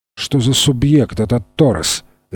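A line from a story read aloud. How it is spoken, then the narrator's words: Sharp question. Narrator (Russian): резким тоном спросил Генри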